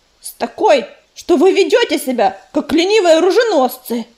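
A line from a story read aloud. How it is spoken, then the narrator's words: Snapped. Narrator (Russian): огрызнулся ежевика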